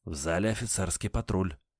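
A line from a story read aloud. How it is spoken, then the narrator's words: Waiter whispering. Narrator (Russian): метрдотель шепнул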